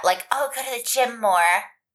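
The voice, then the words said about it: Imitates a young white girl's voice. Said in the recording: “my impression. of like the white teen girl or white 20s girl.”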